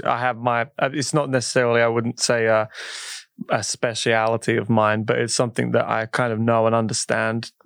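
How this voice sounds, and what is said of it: British accent. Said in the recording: “You're from the UK, if y'all haven't figured that out by his fabulous accent.”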